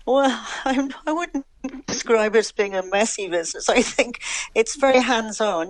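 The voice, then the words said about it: English accent. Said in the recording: “your accent tells us that you were originally from England ... I know my accent has never changed overall.”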